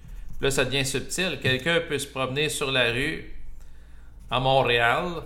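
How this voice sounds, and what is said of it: Québécois accent with rolled r's. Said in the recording (French): “Je fais exprès de rouler mes airs ... Moi aussi, j'ai mon accent en passant québécois ... il y a des gens de l'extérieur qui peuvent me regarder et trouver que j'ai un accent”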